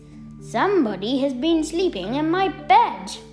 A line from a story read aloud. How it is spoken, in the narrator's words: he said in his great big growly voice